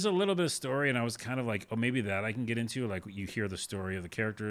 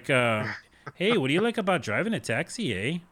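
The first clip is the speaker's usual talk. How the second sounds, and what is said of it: Weak put-on Minnesota accent. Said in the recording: “they're out of the series Fargo... Like they're from Minnesota... Minnesota, eh?... I can't do the accent”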